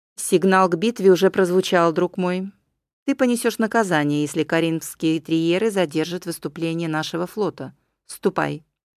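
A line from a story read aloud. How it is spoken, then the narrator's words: Firm, unyielding. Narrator (Russian): Еврипиад промолвил непреклонным голосом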